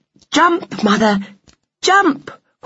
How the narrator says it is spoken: cried Flora

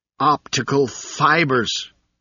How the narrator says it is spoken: cried

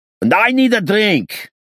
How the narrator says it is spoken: he roared suddenly

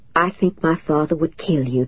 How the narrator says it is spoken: Tom said softly

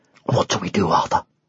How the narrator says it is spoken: he muttered

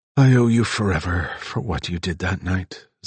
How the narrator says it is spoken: Zig sighed

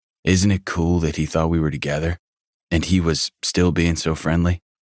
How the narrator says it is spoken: I asked

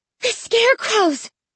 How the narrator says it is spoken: I exclaimed breathlessly

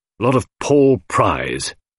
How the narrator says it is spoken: grunted Miss Howard

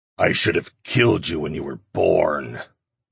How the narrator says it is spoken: the demon snarled

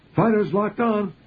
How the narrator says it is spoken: he shouted

